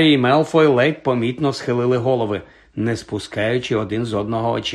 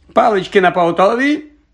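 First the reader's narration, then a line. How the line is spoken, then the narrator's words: Shouted. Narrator (Ukrainian): крикнув Локарт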